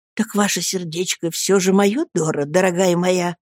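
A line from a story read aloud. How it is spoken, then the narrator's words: Ecstatic whisper. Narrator (Russian): в восторге прошептал я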